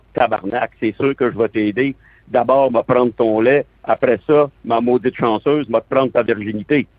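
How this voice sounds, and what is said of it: Strong Québécois French accent. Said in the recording (French): “Tu as en effet un très bon accent québécois”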